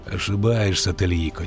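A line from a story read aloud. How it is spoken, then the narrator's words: Quiet. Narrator (Russian): тихо сказал ведьмак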